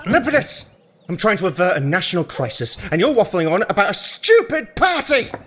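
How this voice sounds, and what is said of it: Raised, angry shouting voice. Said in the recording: “raising my voice”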